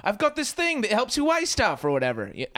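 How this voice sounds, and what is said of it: Bad put-on British accent. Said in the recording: “a British guy who's like ... that was a terrible accent”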